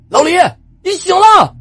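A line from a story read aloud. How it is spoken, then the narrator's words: Delighted shout. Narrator (Chinese): 王博惊喜的喊了起来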